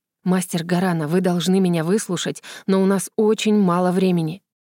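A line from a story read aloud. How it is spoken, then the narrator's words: Whisper. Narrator (Russian): шепотом произнес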